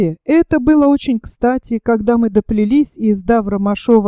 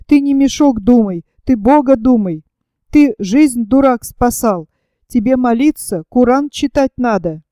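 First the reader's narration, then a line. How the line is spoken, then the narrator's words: Angry. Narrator (Russian): Маша сердито сказала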